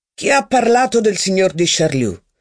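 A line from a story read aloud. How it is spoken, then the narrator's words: Insolent reply. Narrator (Italian): replicò il barone con tono insolente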